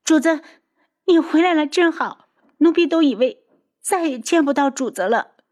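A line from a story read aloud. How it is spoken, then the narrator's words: Crying. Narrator (Chinese): 哭着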